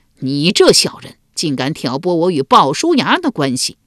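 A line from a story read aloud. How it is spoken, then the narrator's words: Furious rebuke. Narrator (Chinese): 管仲大怒，直戳赤道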